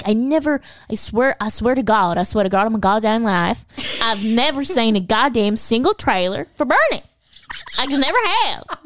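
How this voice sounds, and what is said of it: Put-on small-town Texas accent. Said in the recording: “Your accent is just so good... this is exactly how everyone in this entire fucking movie talks, including Jack Black”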